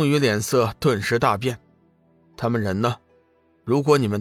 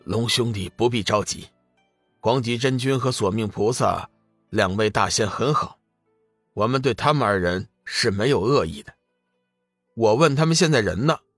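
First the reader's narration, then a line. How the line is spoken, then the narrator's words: Cold voice. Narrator (Chinese): 龙宇冷声道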